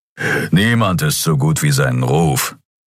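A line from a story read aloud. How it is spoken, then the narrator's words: Growled. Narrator (German): knurrte Keru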